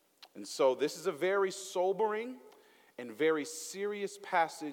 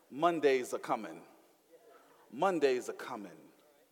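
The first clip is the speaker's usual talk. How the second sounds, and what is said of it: Put-on Southern twang. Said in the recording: “I'm put a little Southern twang on that thing.”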